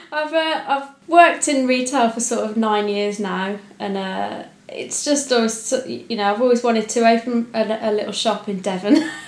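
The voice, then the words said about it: Slight Birmingham accent. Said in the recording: “a little bit of a twang of somewhere around the Birmingham area”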